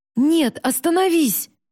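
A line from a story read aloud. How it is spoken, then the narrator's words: Shout. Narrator (Russian): закричал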